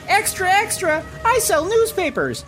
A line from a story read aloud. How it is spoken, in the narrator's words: a scamp yells